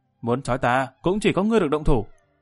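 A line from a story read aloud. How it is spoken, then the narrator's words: Fierce angry shout. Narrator (Vietnamese): càng thêm cương liệt, hai mắt trợn tròn tức giận quát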